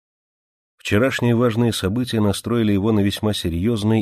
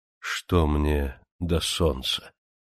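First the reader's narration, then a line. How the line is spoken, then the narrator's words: Slow, cold tone. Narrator (Russian): Монтанелли проговорил это медленно, холодным тоном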